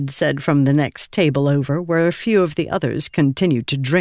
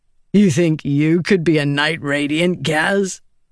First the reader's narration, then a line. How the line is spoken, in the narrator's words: Vatha said, chuckling